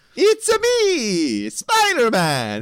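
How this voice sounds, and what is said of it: Bad put-on Italian accent. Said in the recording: “your horrible accent there, although I'll give it to you, you're more Italian than me”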